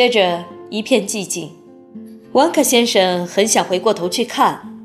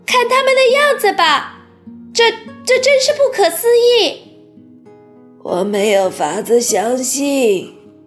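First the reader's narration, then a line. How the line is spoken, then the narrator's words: Exclaiming. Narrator (Chinese): 他叫道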